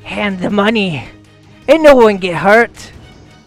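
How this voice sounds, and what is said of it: Mixed put-on accent, Scottish goblin-like. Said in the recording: “what was the accent we were going for there? ... It was kind of like a Scottish goblin. ... my Scottish whatever I normally do. ... And then I went like Boston. And then it just turned into audible diarrhea.”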